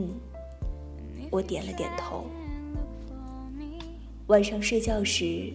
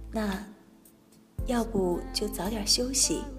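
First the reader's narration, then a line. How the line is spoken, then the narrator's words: Soft, relaxed question. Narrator (Chinese): 丁宇也把表情放松了，柔声问我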